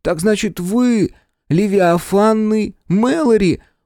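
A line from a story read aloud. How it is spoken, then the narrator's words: Admiring breathless exclamation. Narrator (Russian): восхищенно выдохнул Тобиас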